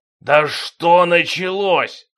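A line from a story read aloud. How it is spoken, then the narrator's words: Impatient roar. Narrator (Russian): взревел король от нетерпения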